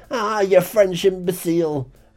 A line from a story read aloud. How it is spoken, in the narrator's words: Bigglesworth just screamed